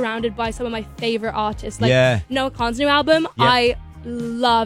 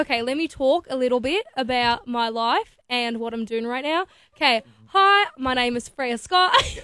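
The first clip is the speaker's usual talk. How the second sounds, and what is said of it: Put-on Australian accent. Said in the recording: “can you do a good Australian accent? ... How well do you do an Aussie accent? ... That was really good.”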